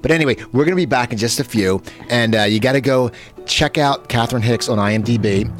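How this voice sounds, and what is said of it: Philadelphia accent. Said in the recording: “You have great New York accent. ... I have a Philadelphia accent, I think.”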